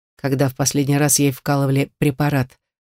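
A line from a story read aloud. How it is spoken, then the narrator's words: Asked very calmly. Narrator (Russian): спросил Ради совершенно спокойно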